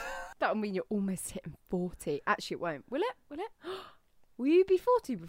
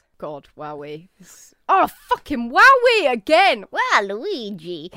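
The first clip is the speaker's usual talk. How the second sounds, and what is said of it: Cartoon villain voice like old woman. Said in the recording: “your Waluigi impression is hilarious. For some reason, you've cast Waluigi as an old woman.”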